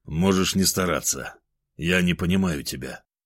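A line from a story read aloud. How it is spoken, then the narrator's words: Calm. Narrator (Russian): спокойно ответил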